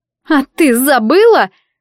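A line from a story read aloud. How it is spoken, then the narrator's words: Two girls sobbing in unison. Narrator (Russian): взвелись одновременно обе девушки и одинаково разрыдались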